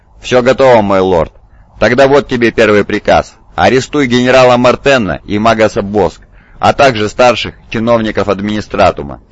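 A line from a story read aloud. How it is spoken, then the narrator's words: Plain. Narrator (Russian): сказал правитель Калибана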